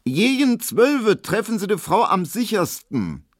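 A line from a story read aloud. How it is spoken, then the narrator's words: Loud, meant to be overheard. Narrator (German): sie sagte so laut, dass es Emil Kubinke hören musste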